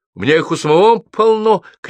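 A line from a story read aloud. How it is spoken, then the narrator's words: Shouted. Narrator (Russian): крикнул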